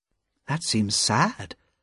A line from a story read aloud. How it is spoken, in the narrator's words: said Lucy gently